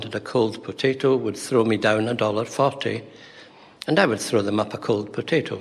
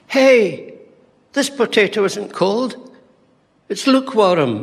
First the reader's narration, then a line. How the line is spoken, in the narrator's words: she shouts down